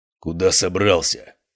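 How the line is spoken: Growling bearded man. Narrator (Russian): прорычал бородач

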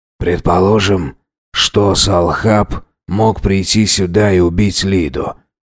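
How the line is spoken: Quiet voice. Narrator (Russian): негромко произнес Эльбрус

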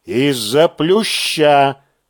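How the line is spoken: Solemn repetition. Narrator (Russian): торжественно повторяю я

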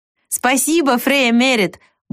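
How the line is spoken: Brisk, cheerful, laughing. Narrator (Russian): Бойко поблагодарил он хозяйку и весело рассмеялся

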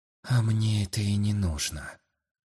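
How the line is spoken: Quiet reply. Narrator (Russian): тихо ответил

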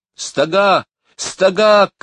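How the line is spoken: Shouted. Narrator (Russian): крикнула Лора

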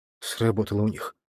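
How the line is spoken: Grumbling. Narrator (Russian): буркнул Борис

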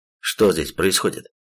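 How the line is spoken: Stern question. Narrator (Russian): строго спросил он у собравшихся

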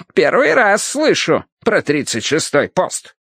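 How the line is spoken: Doubtful snort. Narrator (Russian): недоверчиво хмыкнул причетник

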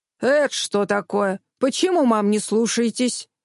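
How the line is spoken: Men growling. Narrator (Russian): дяди около автомобилей зарычали

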